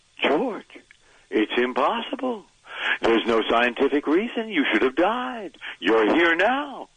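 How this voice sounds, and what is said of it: Imitates another person's voice. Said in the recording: “is that your impression of William Shatner? ... it's pitch perfect ... You nailed it.”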